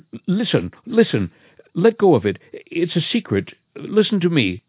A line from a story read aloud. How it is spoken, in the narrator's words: in a panic, stammering